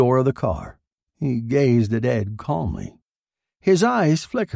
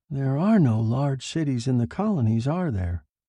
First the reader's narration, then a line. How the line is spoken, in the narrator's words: Peter murmured